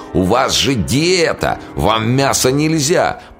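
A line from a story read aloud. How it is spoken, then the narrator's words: Shouting, joker. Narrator (Russian): шутник крикнул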